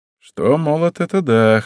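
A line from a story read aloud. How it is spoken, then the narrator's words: Wry snort. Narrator (Russian): хмыкнул он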